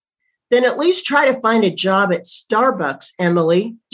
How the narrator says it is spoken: Dave yelled

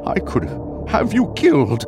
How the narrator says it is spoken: Eben said desperately

